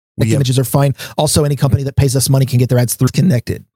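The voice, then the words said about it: Sped-up, high-pitched chipmunk-like voice. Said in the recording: “Now you got the speed up... talking like a chipmunk”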